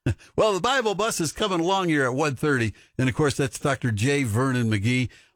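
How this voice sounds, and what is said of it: Usual voice. Nothing is said of it.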